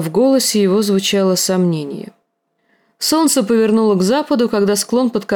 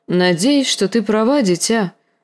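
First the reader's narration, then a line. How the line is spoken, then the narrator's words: Sighing uncle. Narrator (Russian): вздохнул дядя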